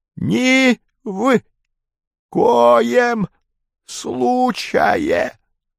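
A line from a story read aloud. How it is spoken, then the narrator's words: Dying hiss. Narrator (Russian): прошипел МС, словно при последнем издыхании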